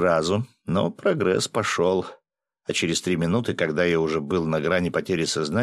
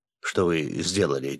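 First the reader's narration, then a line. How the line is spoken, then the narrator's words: Quiet question. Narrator (Russian): тихо спросил Влад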